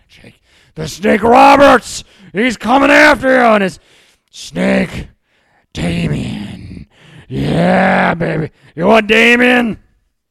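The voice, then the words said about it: Imitates a wrestler's voice. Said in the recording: “My impression's fantastic. That was a good one right there.”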